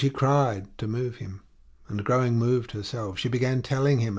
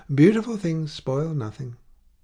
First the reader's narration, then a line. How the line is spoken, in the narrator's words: The notary replied in a gallant tone